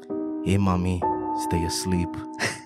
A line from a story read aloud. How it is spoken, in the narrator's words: me whispering